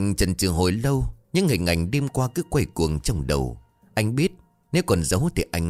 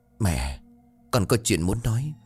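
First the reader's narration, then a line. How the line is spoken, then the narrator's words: Trembling. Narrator (Vietnamese): run rẩy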